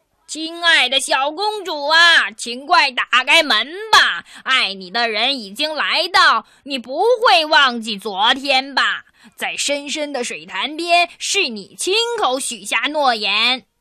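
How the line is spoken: Loud calling. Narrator (Chinese): 门外的青蛙又大声的叫起来

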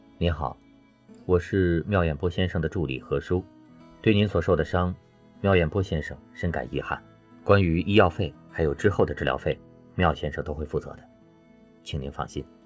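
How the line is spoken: Flat, detached statement. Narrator (Chinese): 表情淡淡的陈述着

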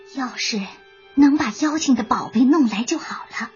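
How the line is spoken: Sighing. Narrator (Chinese): 隐身娃叹了一口气

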